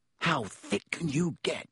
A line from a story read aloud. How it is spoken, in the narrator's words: Ron whispered ecstatically